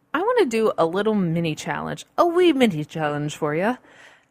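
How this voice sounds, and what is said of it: Bad put-on Irish accent. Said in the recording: “horrible Irish accent”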